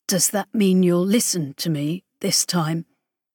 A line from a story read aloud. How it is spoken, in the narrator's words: Idris rasped